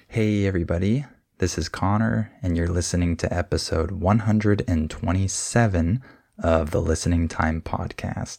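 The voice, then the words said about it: Weak voice from being sick. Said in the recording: “my voice is a little bit weak because I'm a little bit sick.”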